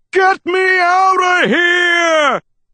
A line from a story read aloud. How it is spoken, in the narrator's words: He shrieked